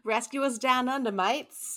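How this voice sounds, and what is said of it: Put-on Australian accent. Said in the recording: “I thought about trying an Australian accent to say it ... There you go. got you covered.”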